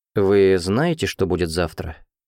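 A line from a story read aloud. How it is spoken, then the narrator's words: Dry chuckle. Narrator (Russian): Она сухо усмехнулась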